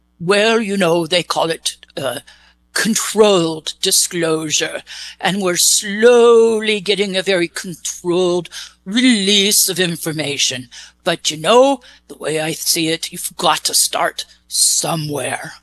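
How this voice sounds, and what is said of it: English accent. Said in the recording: “Where did you get your English accent? ... Oh, I actually created it for you.”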